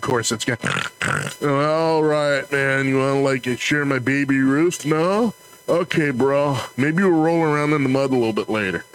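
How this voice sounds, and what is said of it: A put-on pig man character voice. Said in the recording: “my impression of the pig man”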